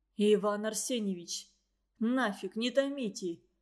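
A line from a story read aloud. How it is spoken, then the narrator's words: Pleading. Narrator (Russian): взмолился Вертер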